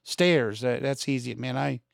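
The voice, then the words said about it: Pennsylvania accent on a word. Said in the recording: “That's my accent from Pennsylvania.”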